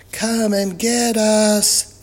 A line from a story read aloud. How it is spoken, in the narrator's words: they yelled